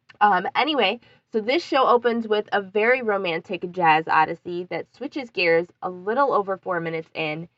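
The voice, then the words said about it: Congested voice with a sore throat. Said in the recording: “I do have a cold... I do sound congested and my throat is not the best... my voice sounds really awful”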